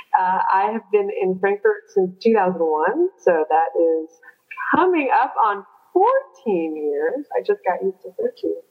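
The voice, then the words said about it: American accent. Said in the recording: “I am obviously an American. You can tell from my accent”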